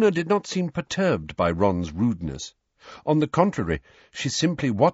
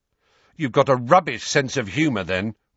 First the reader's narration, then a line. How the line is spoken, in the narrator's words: Ron snapped